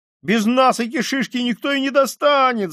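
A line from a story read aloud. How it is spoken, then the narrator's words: Desperate boy shouting. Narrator (Russian): закричал мальчик с отчаянными синими глазами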